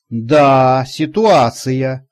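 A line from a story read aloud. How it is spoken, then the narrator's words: Snorting. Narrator (Russian): хмыкнул он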